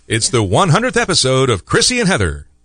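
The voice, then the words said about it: Deep announcer-style radio voice. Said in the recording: “That is a radio voice right there. ... That is the voice for radio.”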